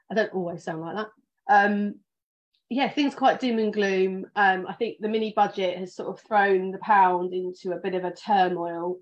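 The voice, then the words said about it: Posh British accent. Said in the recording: “my British accent ... this is my phone voice, my posh Zoom voice”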